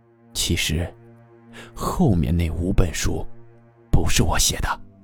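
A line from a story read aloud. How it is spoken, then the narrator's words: Whisper. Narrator (Chinese): 作家悄声悄语地说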